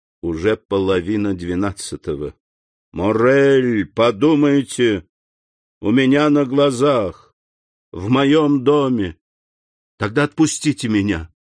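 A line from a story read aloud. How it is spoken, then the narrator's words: Gloomy. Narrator (Russian): мрачно сказал Максимилиан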